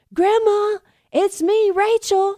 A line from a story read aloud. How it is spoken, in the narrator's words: she shouted